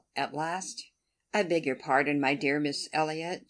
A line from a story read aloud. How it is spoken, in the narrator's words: she cried in her natural tone of cordiality